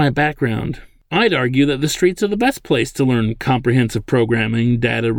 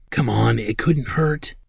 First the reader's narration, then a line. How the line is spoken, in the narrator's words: she whispered